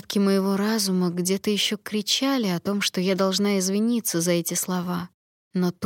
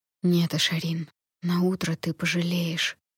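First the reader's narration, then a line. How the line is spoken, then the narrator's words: Whisper. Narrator (Russian): прошептал Райан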